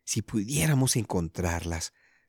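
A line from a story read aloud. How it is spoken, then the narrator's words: Whispered. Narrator (Spanish): susurró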